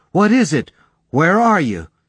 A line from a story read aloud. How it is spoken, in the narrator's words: shouting